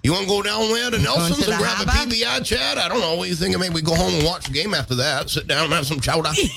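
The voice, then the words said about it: Put-on Maine accent. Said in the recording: “Maine accent ... But why don't you talk like that? ... that's not how I talk. I talk like this.”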